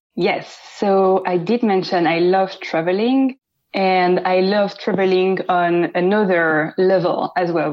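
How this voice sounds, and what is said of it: French accent. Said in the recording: “beautiful French accent”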